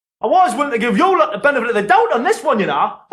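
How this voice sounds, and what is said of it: Newcastle Geordie accent, lively intonation. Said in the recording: “纽卡斯尔口音，有非常有趣的语调形态”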